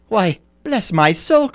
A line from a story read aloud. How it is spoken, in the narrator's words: cried Fred